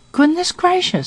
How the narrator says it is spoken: Aunt Pullet exclaimed, after preluding by an inarticulate scream

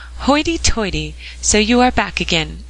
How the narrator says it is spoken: exclaimed Mr

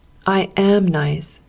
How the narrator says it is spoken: said Dick

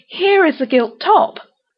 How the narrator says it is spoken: she exclaimed

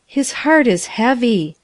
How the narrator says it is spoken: sighed the child

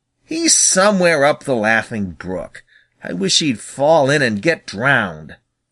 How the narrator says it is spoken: snapped Little Joe

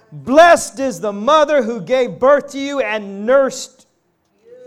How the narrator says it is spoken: a woman in the crowd called out

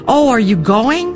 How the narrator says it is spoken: I cried out in despair

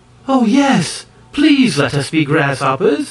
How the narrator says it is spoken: exclaimed the High Ki maids in the same breath

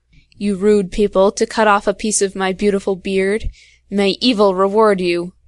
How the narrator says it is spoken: he growled to himself

